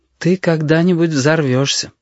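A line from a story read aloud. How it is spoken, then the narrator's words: Sad prediction. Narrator (Russian): печально предрекла Анда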